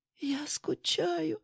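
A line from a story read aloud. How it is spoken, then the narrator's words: Whisper. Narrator (Russian): шепнула Юля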